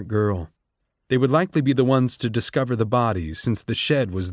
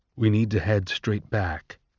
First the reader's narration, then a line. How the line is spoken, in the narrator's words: Coriolanus said quietly to Sejanus